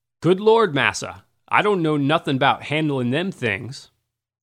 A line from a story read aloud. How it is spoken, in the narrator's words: One liberated man exclaimed